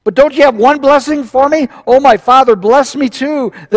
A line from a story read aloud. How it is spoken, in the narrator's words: Esau pleaded